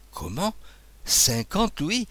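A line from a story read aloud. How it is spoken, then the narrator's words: Astonished exclamation. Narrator (French): s'écria l'abbé Rémy, tout ébouriffé de la largesse royale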